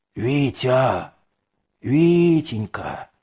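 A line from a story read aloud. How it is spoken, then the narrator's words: Hoarse calling out. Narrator (Russian): наутре сиплым голосом позвал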